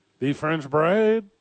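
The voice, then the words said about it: Put-on French accent. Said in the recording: “That's my only French accent.”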